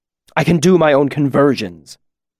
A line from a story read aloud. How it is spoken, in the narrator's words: he snapped